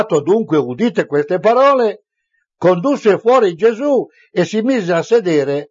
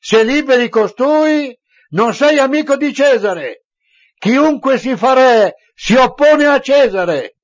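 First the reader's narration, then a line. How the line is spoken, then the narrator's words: Crowd shouting. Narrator (Italian): i giudei gridavano, dicendo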